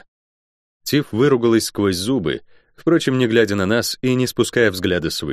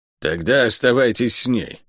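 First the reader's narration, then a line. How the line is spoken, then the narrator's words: Grumbling. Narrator (Russian): буркнула проклятая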